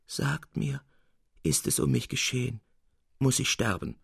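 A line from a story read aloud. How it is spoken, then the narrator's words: Soft groan. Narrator (German): ächzte er leise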